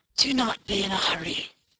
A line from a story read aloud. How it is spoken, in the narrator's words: croaked the old woman